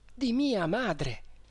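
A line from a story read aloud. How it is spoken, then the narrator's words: Exclaimed. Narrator (Italian): esclamai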